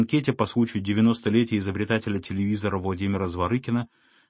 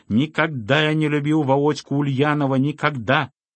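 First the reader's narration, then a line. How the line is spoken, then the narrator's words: Heated tenor shouting. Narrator (Russian): Разгорячившись в разговоре, кричал тенорком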